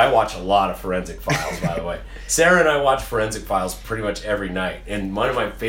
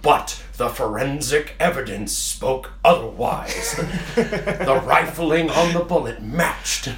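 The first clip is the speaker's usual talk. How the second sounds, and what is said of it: Peter Thomas documentary narrator impression. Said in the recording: “impersonating Peter Thomas, like a narrator”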